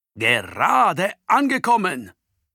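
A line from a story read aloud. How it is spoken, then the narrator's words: Calling out. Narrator (German): ruft Antonio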